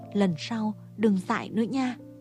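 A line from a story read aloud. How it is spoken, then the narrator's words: Gentle, tender. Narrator (Vietnamese): Mé dịu dàng bảo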